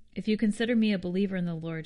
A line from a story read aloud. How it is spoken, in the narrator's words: she said